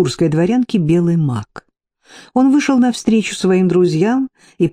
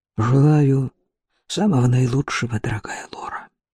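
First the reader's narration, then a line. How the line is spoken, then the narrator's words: Sighing mutter. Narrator (Russian): Немец вздохнул и пробормотал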